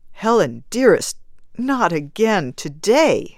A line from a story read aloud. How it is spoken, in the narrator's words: he begged